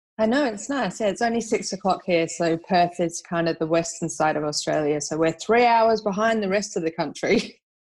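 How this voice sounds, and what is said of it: Slight Australian accent on English speaker. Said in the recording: “slight accent there, you're all the way over in Perth, although you are English ... You've picked up that accent already”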